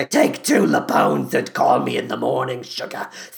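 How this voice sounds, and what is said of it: Weak imitation of another person's voice. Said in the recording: “I don't do a very good Harvey Firestein ... that I did that impression.”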